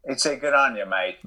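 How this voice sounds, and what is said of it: Put-on Australian accent. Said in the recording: “That's a good Aussie accent. ... Oh, mate, I can turn it on.”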